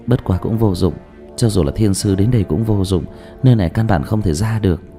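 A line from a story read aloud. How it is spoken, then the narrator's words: Sighing. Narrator (Vietnamese): Dương Tư Linh lại thở dài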